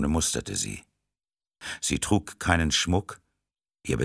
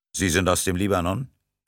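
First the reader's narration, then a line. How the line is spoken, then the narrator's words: Plain. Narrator (German): fragte Rostov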